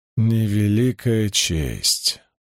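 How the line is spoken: Gloomy exhale. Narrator (Russian): мрачно выдохнул Доусон

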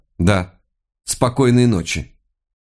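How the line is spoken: Dry reply. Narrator (Russian): Подумав, что он говорит это иронически, она сухо ответила

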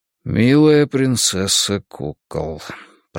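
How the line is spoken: Mumbled. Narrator (Russian): пробормотал

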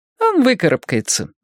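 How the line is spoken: Feigned casual tone. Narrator (Russian): сказала Аня, деланно небрежным тоном

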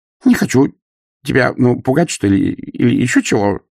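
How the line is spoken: Whimpering. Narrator (Russian): проскулил господ

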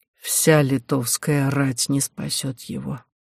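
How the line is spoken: Quiet. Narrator (Russian): тихо сказал Роман

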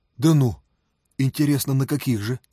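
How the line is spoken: Warm, smiling. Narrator (Russian): ласково улыбнулся

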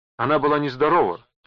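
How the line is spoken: Shouting. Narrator (Russian): прокричала мадам Мартель

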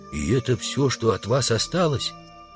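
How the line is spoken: Whispered question. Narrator (Russian): Удалов спросил шепотом

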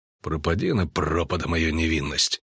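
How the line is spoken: Grumble. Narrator (Russian): буркнул Геральт

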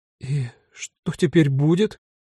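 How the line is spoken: Trembling voice question. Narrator (Russian): дрогнущим голосом спросила Вера

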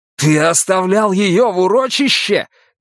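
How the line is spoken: Shouted. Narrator (Russian): крикнул ему

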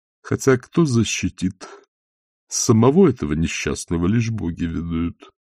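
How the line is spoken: Muttering to himself. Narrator (Russian): пробормотал Сальцелло себе под нос

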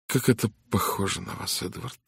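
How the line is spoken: Sighing. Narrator (Russian): вздохнула Мидж

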